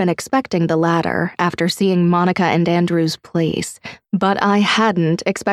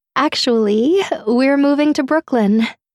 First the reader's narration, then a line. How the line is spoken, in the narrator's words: she laughed